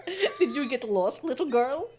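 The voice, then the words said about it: Dracula-like Scandinavian-sounding character voice. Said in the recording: “sounds like Dracula ... it's kind of like Scandinavian Swedishy to me.”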